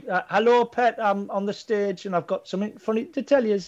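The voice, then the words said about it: Generic put-on Geordie accent. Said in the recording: “She sounds like someone doing an impression of a Geordie... A generic sort of Geordie.”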